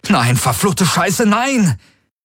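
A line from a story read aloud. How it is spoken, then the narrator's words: Shouted. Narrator (German): rief er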